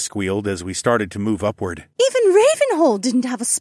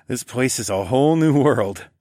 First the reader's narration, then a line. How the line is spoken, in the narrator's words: I chuckled